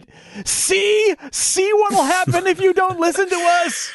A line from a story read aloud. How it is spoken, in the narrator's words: Carlos yells at it